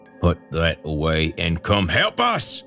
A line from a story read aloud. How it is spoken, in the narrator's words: Earl growled between tight lips